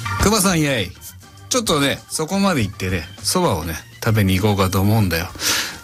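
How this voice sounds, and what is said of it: Rakugo-style character voices. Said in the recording (Japanese): “モノマネというか落語のおそばを食べるのをやってほしいです”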